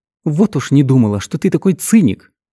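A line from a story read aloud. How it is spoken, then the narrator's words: Exclaimed. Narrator (Russian): воскликнула Гвен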